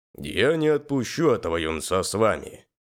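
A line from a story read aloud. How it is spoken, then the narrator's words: Fairly stern. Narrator (Russian): достаточно строго сказал Иной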